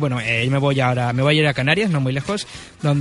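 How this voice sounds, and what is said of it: Usual voice. Nothing is said of it.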